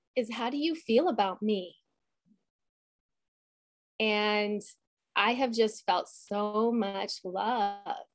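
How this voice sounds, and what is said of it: Emotional, choked-up voice. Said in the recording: “I'm getting a little emotional.”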